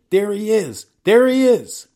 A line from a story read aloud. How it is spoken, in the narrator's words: a voice cried out from below